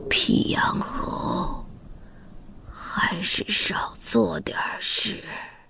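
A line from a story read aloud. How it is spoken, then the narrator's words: Trembling, forced-out words. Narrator (Chinese): 上下嘴唇不停的抖动，一咬牙，蹦出半句话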